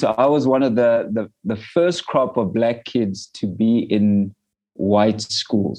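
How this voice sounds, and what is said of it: South African accent. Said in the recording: “we're still in apartheid South Africa ... hence the accent”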